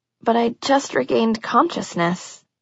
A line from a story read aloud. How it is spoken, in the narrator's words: I murmured, a pleasant chemical exhaustion washing through me